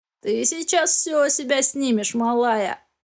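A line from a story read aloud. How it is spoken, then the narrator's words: Grinning, creaky voice. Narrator (Russian): осклабился тот, что со скрипучим голосом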